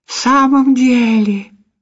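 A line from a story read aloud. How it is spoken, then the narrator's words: Joyful questioning. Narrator (Russian): радостно переспросил Маурицио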